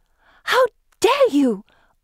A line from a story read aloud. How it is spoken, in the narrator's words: I gasp